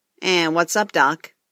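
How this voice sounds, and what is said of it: Bugs Bunny impression. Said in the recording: “did an impression of Bugs Bunny”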